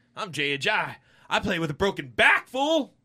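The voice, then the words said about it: Kentucky county sheriff voice. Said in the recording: “his Jay Ajayi impression ... I do the same impression for everyone ... that was a Kentucky county sheriff that doesn't have a vehicle and wore suspenders”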